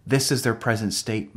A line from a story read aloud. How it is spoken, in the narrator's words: my guide replied